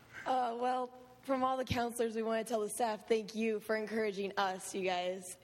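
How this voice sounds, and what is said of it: Hoarse, strained voice. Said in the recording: “my voice is kind of gone”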